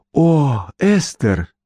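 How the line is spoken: Exclamation. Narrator (Russian): воскликнула миссис Белдербосс

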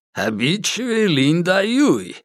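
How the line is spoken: Laughing. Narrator (Russian): рассмеялся Ли Саньдо

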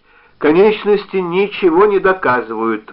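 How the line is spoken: Exclaiming. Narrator (Russian): воскликнул Уорд

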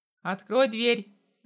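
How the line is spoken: Barked. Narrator (Russian): рявкнул

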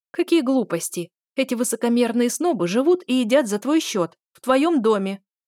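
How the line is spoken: Indignant female exclamation. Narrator (Russian): воскликнула Мариса

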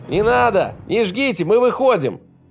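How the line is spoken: Shouting. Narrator (Russian): закричал кто-то

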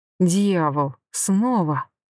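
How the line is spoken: Breathless exhale. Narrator (Russian): выдохнула

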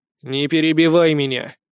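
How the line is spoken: Stern command. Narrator (Russian): строго приказал ей

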